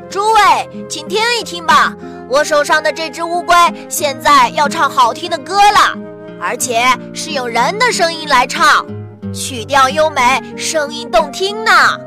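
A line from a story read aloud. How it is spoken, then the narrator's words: Loud hawking call. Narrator (Chinese): 大声吆喝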